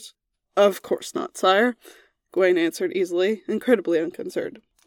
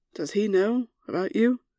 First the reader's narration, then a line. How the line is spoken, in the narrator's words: Lancelot asked quietly into Merlin's ear